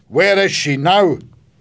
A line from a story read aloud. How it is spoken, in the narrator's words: her grandfather asked angrily